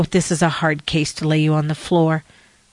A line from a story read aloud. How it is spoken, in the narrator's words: Elder Richards said